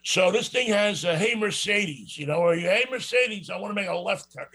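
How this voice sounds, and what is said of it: New York accent. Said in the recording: “I have this New York accent”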